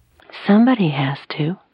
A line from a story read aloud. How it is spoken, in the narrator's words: Marilyn said in a sweet tone